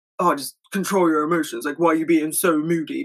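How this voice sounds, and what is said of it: Bad impression of a man. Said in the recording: “That was a really bad impression.”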